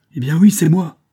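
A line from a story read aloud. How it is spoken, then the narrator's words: Furious girl's exclamation. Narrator (French): s'exclama la grosse fille en jetant un regard furibond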